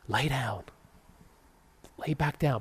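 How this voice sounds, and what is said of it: Whispering. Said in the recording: “Why I'm whispering?”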